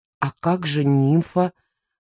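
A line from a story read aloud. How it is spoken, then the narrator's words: Mouthed whisper. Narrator (Russian): шепнула я одними губами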